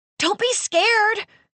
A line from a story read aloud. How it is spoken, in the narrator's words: Marnie panted